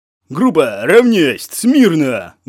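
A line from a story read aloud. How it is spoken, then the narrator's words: Loud command. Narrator (Russian): громко скомандовал Болев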